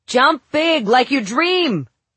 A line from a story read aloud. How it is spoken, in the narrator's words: Gwen shouted, one of her favorite motivational phrases